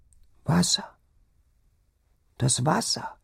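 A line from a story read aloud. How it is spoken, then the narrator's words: Sick woman whimpering. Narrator (German): wimmerte die Kranke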